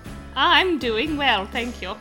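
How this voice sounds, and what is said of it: Upper-crust British accent. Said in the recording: “I don't know why I've decided on this accent ... These upper crust British people accent”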